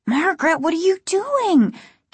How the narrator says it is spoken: Casey asked, his voice high and frightened

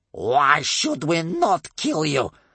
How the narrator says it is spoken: asked Bear Cub's grandmother in a dreadful, angry voice

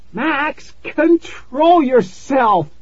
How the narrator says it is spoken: she screamed

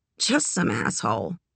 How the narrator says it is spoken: mumbled over her shoulder

